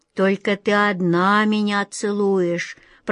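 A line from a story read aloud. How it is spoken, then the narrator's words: Creaky old female voice. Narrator (Russian): проскрипела тетушка-черепаха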